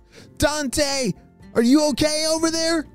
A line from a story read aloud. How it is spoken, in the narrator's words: shouted Tina